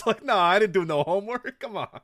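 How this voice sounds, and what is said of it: Stereotypical bad Italian accent. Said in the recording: “pretty good. It's a pretty good stereotypically bad Italian accent”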